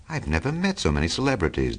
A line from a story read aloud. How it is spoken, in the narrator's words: Daisy exclaimed